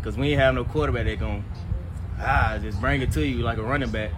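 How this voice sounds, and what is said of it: Alabama Southern accent. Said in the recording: “Love the Alabama accent, too.”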